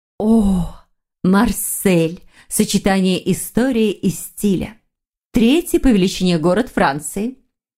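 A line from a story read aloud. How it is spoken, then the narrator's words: Enthusiastic. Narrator (Russian): Восторженно повествовала Вера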